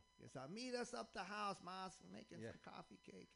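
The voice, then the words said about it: Imitated Boston accent. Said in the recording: “she's hardcore Bostonian... She's got the accent, all that stuff.”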